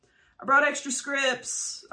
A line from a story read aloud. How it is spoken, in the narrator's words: I yelled over the crowd